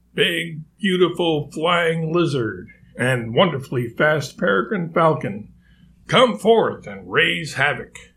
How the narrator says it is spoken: Alexis cried out

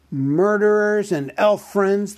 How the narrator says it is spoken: the great goblin shouted

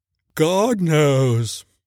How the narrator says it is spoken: said the first with a yawn

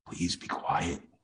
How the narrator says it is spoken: Lem pleaded with a whisper

